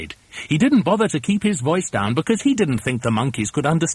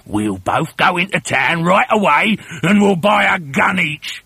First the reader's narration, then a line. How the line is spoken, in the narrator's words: he shouted